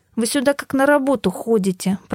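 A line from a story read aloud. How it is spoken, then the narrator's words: Grumbling. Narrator (Russian): проворчала я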